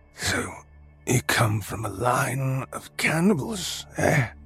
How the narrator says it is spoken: Oscar croaked

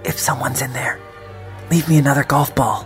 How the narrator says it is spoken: I whispered

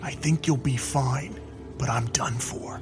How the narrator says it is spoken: Sarge whispered

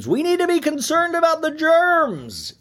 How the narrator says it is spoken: she screams

